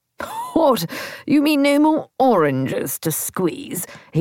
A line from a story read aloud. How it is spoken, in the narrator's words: He laughed again